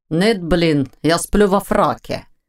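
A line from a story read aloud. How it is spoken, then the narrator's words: Grumbled. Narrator (Russian): проворчал Войтах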